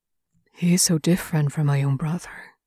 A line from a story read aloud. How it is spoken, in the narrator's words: he says softly